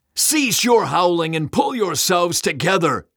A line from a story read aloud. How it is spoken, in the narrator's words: Satan bellowed